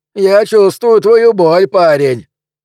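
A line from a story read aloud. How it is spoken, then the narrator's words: Shout. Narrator (Russian): крикнул кто-то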